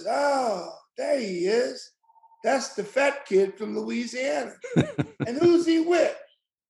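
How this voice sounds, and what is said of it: Impression of Howard Cosell. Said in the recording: “It's like Cosell, so in that Cosell voice.”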